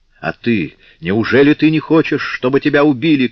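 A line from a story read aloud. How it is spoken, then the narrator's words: Shout. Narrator (Russian): крикнул он Друэ Дерлону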